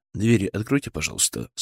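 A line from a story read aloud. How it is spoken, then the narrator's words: Calm demand. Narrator (Russian): спокойно потребовал я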